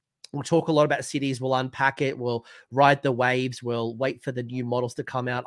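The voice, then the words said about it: Hoarse, strained voice. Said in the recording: “I've completely lost my voice ... my voice is killing me”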